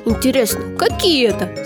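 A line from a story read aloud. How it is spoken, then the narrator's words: Plain. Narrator (Russian): спросил Женька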